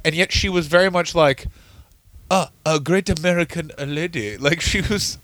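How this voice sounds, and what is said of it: Put-on accent. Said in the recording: “What am I doing that accent for?”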